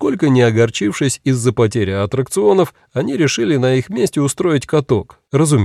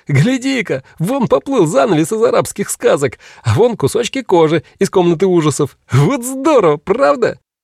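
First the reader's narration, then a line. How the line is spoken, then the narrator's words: Laughing shouts. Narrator (Russian): смеялись, кричали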